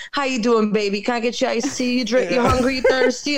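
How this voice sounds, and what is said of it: Southern impression in New York accent. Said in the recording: “an impersonation of a Southern person with a very New York accent”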